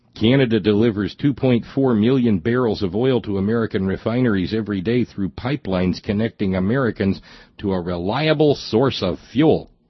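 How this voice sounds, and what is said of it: Poor attempt at Canadian accent. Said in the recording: “my his poor attempt at doing a Canadian accent.”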